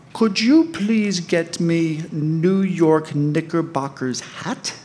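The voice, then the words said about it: Heavy French accent, broken English. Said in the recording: “in broken English with a very heavy French accent”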